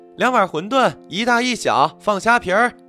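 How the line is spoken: Shouting to the kitchen. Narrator (Chinese): 老板娘就对后厨喊道

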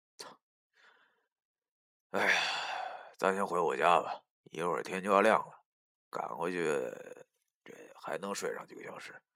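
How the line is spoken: Sighing. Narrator (Chinese): 我叹了口气，对老易说

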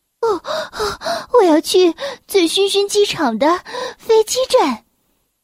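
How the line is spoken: Breathless, panting. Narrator (Chinese): 明星小姐气喘吁吁的说

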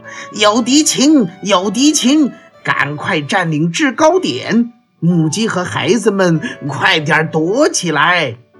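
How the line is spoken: Loud shout. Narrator (Chinese): 卢茨佩罗高声喊道

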